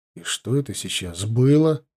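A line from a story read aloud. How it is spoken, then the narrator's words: Muttering. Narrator (Russian): пробормотал я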